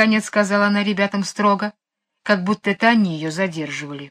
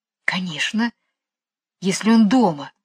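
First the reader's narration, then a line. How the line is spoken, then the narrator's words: Whisper. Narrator (Russian): шепнула Джейн Майклу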